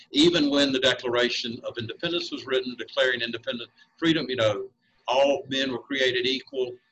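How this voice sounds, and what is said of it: Speaks with a noticeable accent. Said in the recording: “I beg you to not let my accent get in the way”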